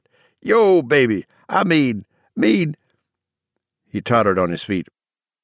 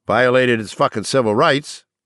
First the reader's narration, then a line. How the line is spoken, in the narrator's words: Torgerson said